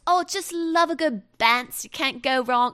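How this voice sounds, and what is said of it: Poorly done put-on Essex accent. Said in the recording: “any person with like an Essex accent ... I try to do an accent and it's like, just, it's awful”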